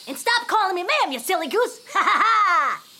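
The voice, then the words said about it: Happy Louie character voice. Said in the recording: “Did you just do Happy Louie? ... Now she does the voice.”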